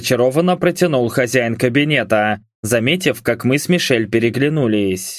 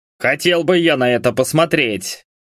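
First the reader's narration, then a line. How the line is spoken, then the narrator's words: Snorting smirk. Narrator (Russian): хмыкнул Хендерсон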